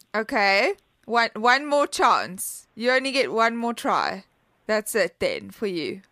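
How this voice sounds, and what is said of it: Mixed Australian and British accent. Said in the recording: “It sounds vaguely Australian. ... It's a very hard accent. I'm kind of a mix between like a drunk Australian and a Brit.”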